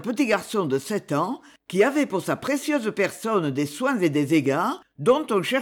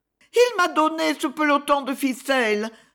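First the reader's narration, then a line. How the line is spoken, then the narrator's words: Sobbing. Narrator (French): sanglotait Ernest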